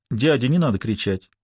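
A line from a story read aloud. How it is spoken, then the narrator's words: Calm child. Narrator (Russian): спокойно сказал ребенок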